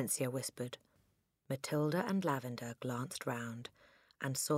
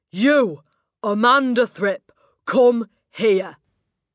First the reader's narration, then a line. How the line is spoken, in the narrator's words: She was shouting